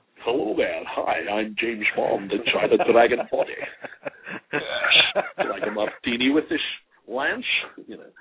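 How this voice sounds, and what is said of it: James Bond impression. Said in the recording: “great impression, by the way. That's very good.”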